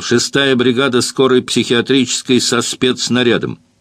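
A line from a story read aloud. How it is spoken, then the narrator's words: Shout. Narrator (Russian): он крикнул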